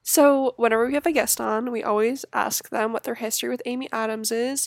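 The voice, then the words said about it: Hoarse, failing voice. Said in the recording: “sorry about my voice, I don't know what's going on ... Don't know why my voice gave out”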